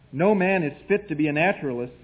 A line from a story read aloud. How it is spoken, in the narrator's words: said he